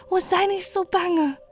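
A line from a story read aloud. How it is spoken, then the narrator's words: Pleading boy. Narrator (German): flehte der Knabe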